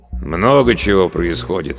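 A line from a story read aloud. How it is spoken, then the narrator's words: Sigh. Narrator (Russian): вздохнул староста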